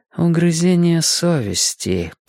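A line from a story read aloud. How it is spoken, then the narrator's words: Muttered. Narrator (Russian): пробормотала она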